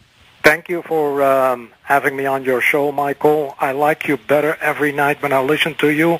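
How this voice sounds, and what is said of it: Dutch accent. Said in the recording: “I got your accent. You are the Dutchman”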